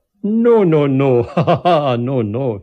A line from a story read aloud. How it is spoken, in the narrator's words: he laughed